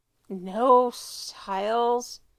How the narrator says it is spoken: Allison groans

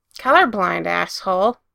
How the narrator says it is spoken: Patrick snapped back

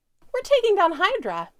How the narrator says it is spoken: Mac says brightly

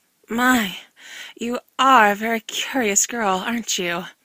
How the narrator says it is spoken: said Helena breathlessly

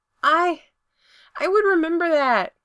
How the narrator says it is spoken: he yells

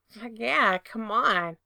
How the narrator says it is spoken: Frank murmured

